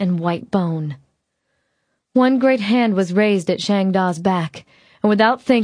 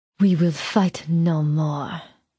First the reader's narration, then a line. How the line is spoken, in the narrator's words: Belle said, and though her voice was still deep, it had lost its sexy purr